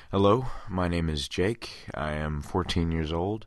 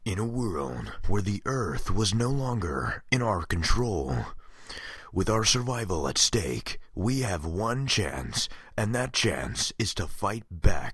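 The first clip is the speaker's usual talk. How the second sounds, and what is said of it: Deep movie trailer announcer voice. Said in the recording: “his was just a little deeper than his friends ... my movie trailer guy impression”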